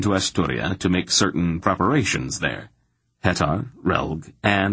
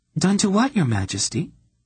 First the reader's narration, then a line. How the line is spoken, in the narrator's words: she replied calmly